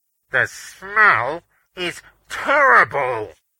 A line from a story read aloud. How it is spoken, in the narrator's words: Beaners called, his voice muffled because he was covering his mouth with a white-gloved hand